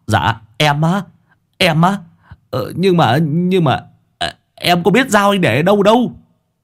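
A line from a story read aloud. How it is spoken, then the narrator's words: Stammering. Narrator (Vietnamese): thằng Sáu Bưởi lại lắp bắp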